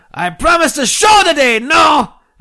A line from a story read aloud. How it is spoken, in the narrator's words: El Gran Cazador Blanco con Pelo Amarillo yelled